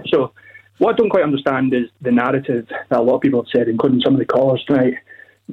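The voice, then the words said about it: Out of breath, breathless speech. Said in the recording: “a bit out of breath. Just ran up the stairs there.”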